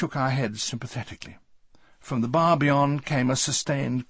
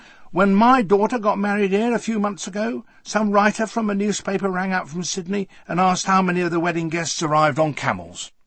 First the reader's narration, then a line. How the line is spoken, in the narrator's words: she added, in an outraged tone